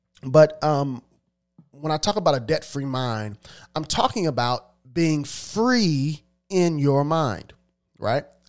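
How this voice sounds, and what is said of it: Congested voice with a cold, sniffling. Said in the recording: “I have a little bit of a cold, so if you hear me sniffling”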